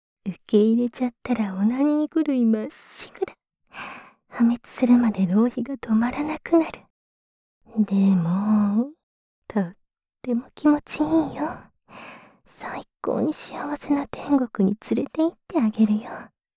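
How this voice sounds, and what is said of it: Whispering voice. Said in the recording (Japanese): “先ほどから聞こえているささやき”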